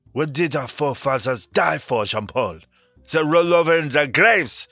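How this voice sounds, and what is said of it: Exaggerated French accent. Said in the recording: “terrible French accents”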